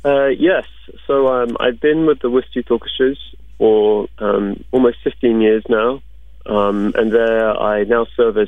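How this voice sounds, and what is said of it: English accent. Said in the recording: “did you wind up going back to England? ... you haven't lost your accent. ... you don't have that Boston accent at all”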